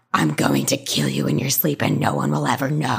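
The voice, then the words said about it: Deep, dark growling voice. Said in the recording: “A deep, dark growl came from what used to be this teenage girl's screech. A deep voice came from this girl saying”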